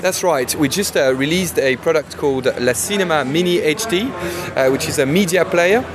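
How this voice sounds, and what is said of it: French accent. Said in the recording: “Unusual accent there. ... I'm French like the company ... my French accent.”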